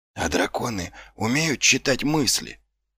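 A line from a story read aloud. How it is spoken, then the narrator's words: Whispered question. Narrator (Russian): шепотом спросил Ваймс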